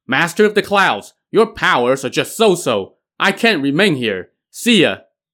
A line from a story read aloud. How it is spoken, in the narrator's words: Wen Zhong shouted again